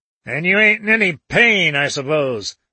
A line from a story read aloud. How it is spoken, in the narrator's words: snarled the other